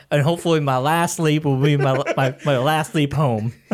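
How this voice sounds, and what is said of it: Imitates another person's voice. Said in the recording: “That was me trying to do his impression.”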